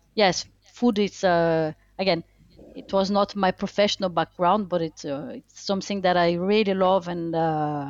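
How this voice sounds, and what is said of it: Brazilian French accent. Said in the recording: “very charming accent that yeah. you come from somewhere else ... I'm Brazilian French”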